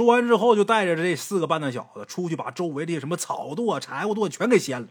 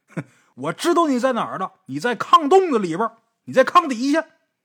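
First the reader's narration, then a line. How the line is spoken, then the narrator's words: Shouted. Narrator (Chinese): 尹老师喊一句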